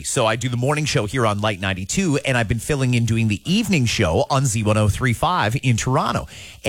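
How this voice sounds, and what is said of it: Hoarse, worn-out voice. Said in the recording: “a few people have pointed out I've lost my voice. I am. It's getting close.”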